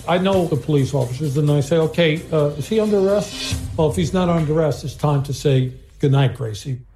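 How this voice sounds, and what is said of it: Thick Bronx accent. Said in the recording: “He's from the Bronx. He's got a thick accent.”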